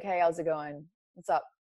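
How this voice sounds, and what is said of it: Put-on masculine tone. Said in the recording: “I would do my voice ... I would put on this masculine tone in my voice”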